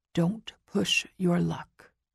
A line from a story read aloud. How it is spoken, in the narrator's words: leans down and whispers in my ear